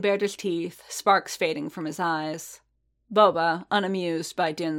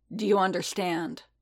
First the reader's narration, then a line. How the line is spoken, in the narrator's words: Bobo rumbled